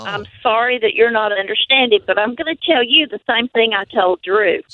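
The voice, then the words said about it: North Carolina accent. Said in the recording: “You don't know my accent. It's from North Carolina.”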